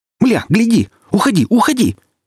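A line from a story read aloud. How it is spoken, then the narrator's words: Shouting. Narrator (Russian): закричал Ренат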